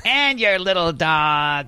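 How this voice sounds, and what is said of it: Imitates another person's voice. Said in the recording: “Was that a Cyndi Lauper impression? ... It was a bit like her.”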